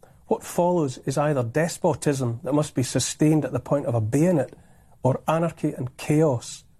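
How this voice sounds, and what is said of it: Scottish accent. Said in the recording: “that great Scottish accent”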